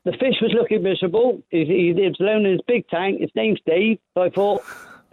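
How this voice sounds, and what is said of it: Bristol English accent. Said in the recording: “You've got a fantastic accent. I spent a lot of time in Bristol. Are you a Bristol boy?”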